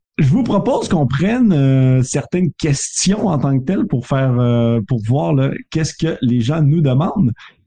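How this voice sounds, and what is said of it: Canadian French accent. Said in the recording (French): “mon accent canadien”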